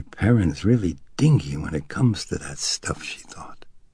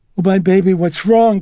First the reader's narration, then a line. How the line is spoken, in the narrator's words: Chris exclaimed